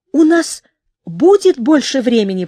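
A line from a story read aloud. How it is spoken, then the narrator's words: Exclamation. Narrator (Russian): воскликнула Яроу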